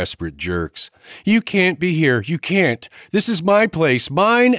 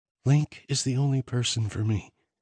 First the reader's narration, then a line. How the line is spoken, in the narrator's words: Arden whispered